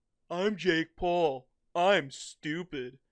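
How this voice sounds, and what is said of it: Dumb-sounding imitation of another person. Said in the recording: “This is my impression of how dumb Jake Paul is... That's what he sounds like.”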